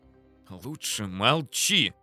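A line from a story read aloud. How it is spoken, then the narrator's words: Hissing colonel. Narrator (Russian): Прошипел на меня полковник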